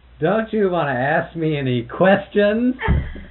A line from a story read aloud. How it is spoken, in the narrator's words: he'd laugh and he'd say